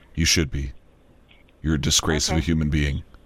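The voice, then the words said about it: Artificially deepened voice. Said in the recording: “I was using that deep voice thing.”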